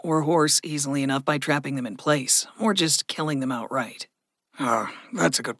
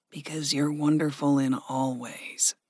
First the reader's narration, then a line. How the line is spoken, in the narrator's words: Gregory murmured